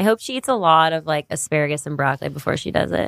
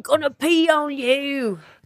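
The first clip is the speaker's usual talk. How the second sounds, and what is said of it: Imitates a movie character's voice. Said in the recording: “like Austin, uh, Fat Bastard from Austin Powers ... good accents”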